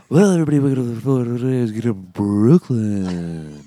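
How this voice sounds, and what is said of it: Stripper club DJ announcer voice. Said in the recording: “You have the best stripper DJ voice ever. ... Just talking the DJ stripper announcer voice.”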